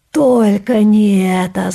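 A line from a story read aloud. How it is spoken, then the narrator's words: Groaning. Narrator (Russian): застонал Кеша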